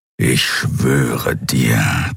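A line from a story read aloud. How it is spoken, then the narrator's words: Warrior growling. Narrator (German): knurrte das Krieger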